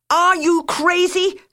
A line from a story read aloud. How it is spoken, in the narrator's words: Guillon shouted at the top of his voice through the door